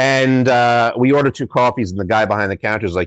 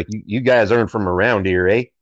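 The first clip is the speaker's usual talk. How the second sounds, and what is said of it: Poor Canadian accent, somewhat Tennessee-sounding. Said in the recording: “that's not even a very good Canadian accent ... Canadian, who kind of sounds a little bit like you're from Tennessee”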